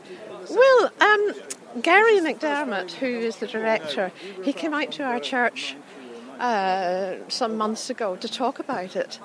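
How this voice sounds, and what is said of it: Northern Irish accent. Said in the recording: “your accent is not from Cambridge ... Originally from Northern Ireland”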